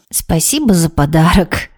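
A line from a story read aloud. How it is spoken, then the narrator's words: Said after laughing. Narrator (Russian): отсмеявшись, сказала Вероника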